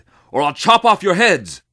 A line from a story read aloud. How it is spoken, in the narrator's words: shouted